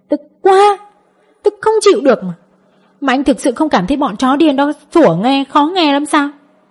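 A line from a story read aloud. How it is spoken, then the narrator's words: Angry shouting while kicking. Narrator (Vietnamese): Hạnh Nhi phát tiết cơn giận của nàng, cứ mỗi một đá lại la lên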